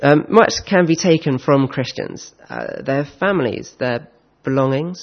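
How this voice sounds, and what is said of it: Usual voice. Nothing is said of it.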